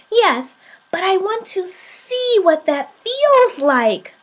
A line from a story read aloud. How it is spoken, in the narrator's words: cried the little soul